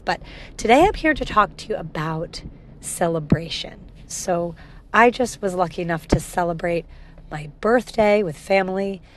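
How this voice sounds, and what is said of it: Slightly crackly, run-down voice. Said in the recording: “my voice sounds a little bit crackly ... just got run down by travel”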